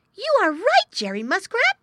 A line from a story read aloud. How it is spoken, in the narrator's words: he cried